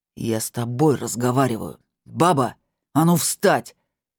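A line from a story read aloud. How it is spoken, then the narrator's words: Furious bark. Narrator (Russian): рявкнул он таким злющим голосом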